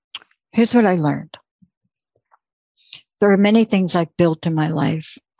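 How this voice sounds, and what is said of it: Choked-up, emotional voice. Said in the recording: “Wow, I'm getting choked up here.”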